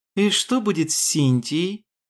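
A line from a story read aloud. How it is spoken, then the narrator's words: Joyful. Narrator (Russian): Голос ее прозвучал радостно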